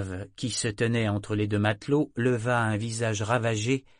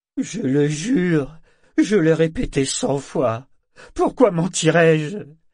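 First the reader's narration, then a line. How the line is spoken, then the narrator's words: Loud sobbing man. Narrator (French): L'homme se mit à sangloter bruyamment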